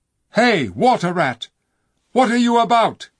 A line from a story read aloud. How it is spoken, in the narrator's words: cried the king